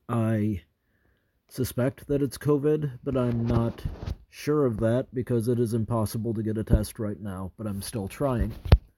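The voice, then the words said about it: Sick, rough-throated voice. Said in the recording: “You can probably hear in my voice that I'm sick ... my throat's messed up”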